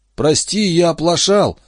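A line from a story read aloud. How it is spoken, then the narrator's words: Guilty mumble. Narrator (Russian): залепетал тот с виноватой улыбкой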